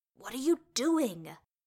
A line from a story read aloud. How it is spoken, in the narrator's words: Bilbo hissed